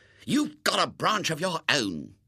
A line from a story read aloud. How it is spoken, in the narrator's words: said Robert fiercely